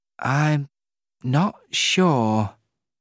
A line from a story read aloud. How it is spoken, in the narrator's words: he answered slowly